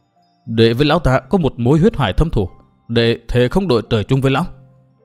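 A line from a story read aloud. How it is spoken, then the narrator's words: Through clenched teeth. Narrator (Vietnamese): Trợn đôi mắt người sắc quang, Từ Mã Minh đáp qua kẽ răng nghiến chặt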